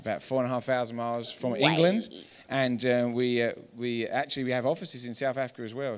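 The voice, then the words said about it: English accent. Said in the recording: “as you can tell by our accents, that we're not from Colorado, from out east, way out east.”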